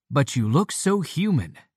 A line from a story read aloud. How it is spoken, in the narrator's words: bamboozles them so profoundly that they exclaim